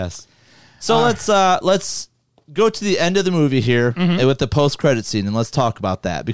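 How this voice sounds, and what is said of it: Usual voice. Nothing is said of it.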